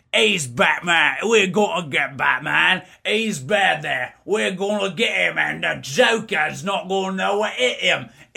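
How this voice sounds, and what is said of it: Exaggerated Cockney British accent. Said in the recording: “my really, really bad impersonation of a British person ... It's so Cockney ... That was a really good British”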